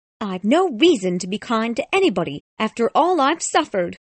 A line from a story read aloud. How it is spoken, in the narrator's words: cried Miss Havisham angrily